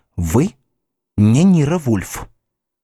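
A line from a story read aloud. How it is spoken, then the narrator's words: Loud whisper. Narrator (Russian): громким шепотом прошептала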